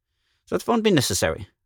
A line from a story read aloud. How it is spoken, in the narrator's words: Magnan said hastily